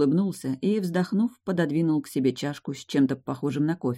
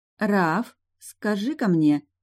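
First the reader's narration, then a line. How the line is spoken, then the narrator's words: Slow, deliberate start. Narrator (Russian): медленно начала Кира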